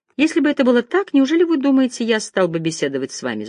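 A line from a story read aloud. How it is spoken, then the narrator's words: Laughing. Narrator (Russian): засмеялся Оливер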